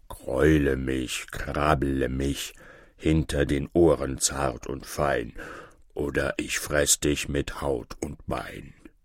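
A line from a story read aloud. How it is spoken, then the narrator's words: Bear's growling grumble. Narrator (German): der Bär ... brummte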